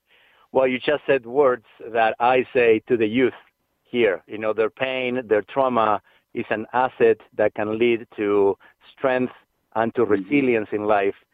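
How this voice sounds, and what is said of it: Noticeable foreign accent in English. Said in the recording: “my accent ... I feel a bit sometimes insecure about my accent ... the message behind the accent”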